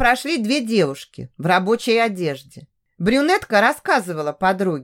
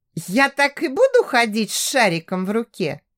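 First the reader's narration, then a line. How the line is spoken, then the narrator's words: Giggling. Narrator (Russian): хихикнула Даша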